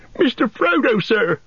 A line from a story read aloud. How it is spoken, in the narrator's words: cried Sam, quaking